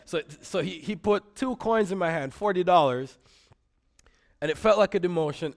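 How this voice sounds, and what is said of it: Jamaican accent. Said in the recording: “I grew up in Jamaica. If you hear an accent, that's what's going on.”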